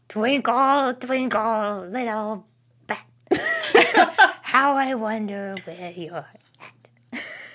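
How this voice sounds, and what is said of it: Cartoon character voice. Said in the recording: “my favorite impression ... That's pretty good ... Spot on”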